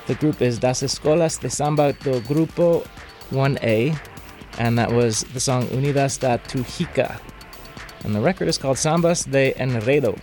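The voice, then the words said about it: Portuguese read with Spanish accent. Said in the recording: “I'm reading Portuguese with a Spanish accent”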